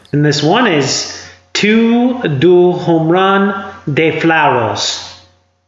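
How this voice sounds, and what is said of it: Bad put-on foreign accent. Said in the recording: “I'm doing an accent, and I probably shouldn't have. It was bad, buddy. ... It was bad. It was bad.”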